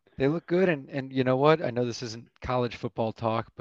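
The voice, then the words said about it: Worn-out, strained voice. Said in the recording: “if you can hear it in my voice is a little shot”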